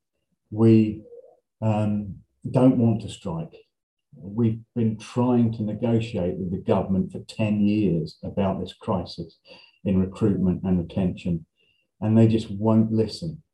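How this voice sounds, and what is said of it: Angry-sounding voice. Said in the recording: “You can probably tell from my voice, I'm angry too.”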